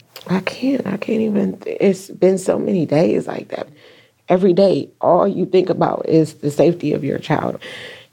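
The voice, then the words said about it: Emotional, tearful voice. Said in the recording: “I'm sorry that I'm a little bit emotional.”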